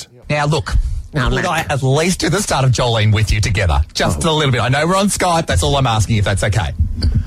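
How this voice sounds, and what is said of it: Australian accent. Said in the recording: “You have such an accent, you know. ... You're very down under.”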